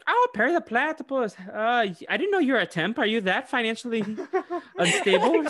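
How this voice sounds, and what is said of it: Cartoon character voice. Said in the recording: “Do you like my Doofenshmirtz impression?”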